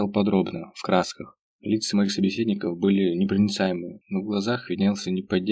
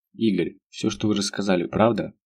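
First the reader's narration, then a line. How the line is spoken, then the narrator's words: Plain. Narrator (Russian): спросил немец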